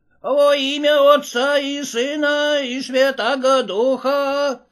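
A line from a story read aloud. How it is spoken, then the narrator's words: Shrill male voice. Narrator (Russian): раздался его визгливый голос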